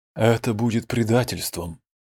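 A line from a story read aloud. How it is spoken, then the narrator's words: Said quietly. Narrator (Russian): тихо произнес Аксати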